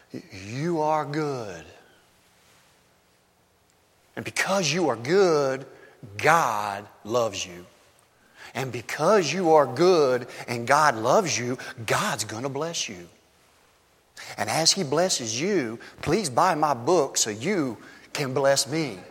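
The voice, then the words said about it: Imitation of a feel-good preacher. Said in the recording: “my terrible impression”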